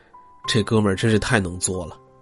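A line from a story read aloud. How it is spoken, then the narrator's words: Quiet, shocked sigh. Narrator (Chinese): 同学们都震惊不已，不少人都默默的感叹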